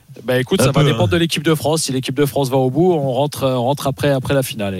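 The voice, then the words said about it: Luxembourgish-accented French. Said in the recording (French): “mon accent luxembourgeois ... on se moque de mon accent”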